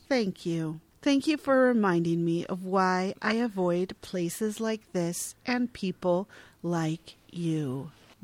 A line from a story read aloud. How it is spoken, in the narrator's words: barely flinches before responding evenly